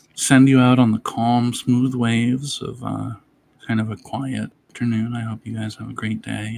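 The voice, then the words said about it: Whispering. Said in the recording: “He's so not enjoying right the whispering”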